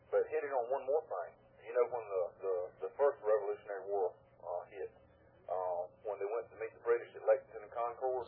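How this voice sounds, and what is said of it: Southern American accent. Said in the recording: “I don't know if you can tell by my accent, but I'm a southerner.”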